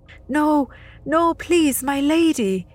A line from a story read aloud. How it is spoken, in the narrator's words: he pleaded